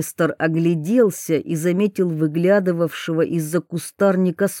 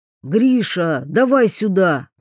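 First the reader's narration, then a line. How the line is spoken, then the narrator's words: Yelling. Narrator (Russian): заорал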